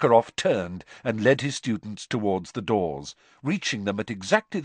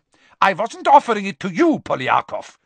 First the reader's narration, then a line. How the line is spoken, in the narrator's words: snapped Karkaroff, his warmly paternal air vanishing in an instant